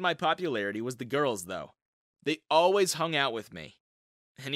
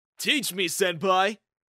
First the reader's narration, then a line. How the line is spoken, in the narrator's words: The basketball team would shout